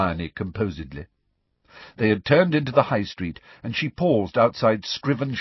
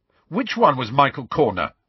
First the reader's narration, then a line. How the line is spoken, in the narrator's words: Ron demanded furiously